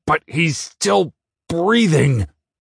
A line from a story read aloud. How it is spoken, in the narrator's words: I snarled